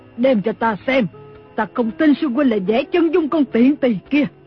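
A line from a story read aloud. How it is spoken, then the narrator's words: Screaming. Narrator (Vietnamese): Lý Thu Thủy thét lên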